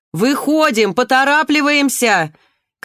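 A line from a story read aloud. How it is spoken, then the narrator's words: Shouted. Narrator (Russian): крикнула медсестра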